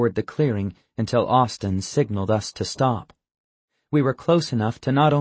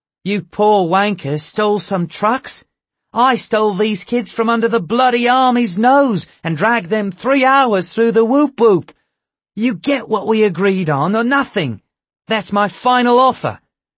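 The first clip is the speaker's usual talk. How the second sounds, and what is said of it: Australian accent. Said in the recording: “The tall guard spoke with an Australian accent.”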